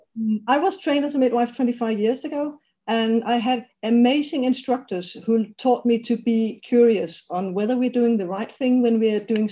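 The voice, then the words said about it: Danish accent speaking English. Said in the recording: “I'm Danish by birth, so English is my second language”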